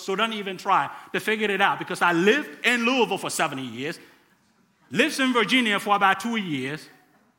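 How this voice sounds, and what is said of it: Ghanaian accent mixed with American. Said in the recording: “a guy with a funny accent from West Africa in Ghana, northern part of Ghana ... it's hard to tell where my accent is ... how messed up my accent could possibly be”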